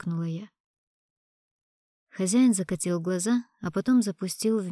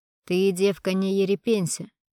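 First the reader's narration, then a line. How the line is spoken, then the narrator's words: Rough, curt. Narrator (Russian): грубо бросил мужчина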